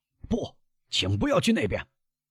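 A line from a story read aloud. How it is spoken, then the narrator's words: Shouted. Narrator (Chinese): 他冲盖塔诺喊道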